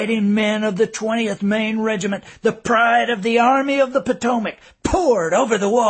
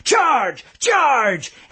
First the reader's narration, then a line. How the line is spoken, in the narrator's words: screamed